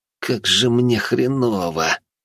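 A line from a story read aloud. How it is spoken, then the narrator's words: Groaning. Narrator (Russian): простонал Олег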